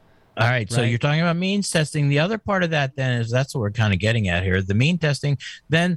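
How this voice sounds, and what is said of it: Usual voice. Nothing is said of it.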